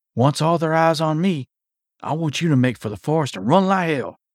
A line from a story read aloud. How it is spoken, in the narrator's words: he whispered